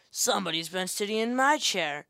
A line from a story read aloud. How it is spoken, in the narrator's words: said the great huge bear in his great rough, gruff voice